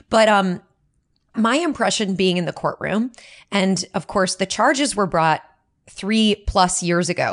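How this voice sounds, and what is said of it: Hoarse, fading voice. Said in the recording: “my own voice. I'm losing it right now from from a lack of sleep”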